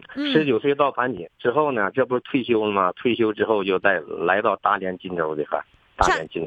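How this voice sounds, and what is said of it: Mild northeastern Chinese accent. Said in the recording (Chinese): “我听口音，你是黑龙江的或者吉林的？ ... 你怎么没有那个辽宁口音呢？ ... 盘锦好像是口音不那么重”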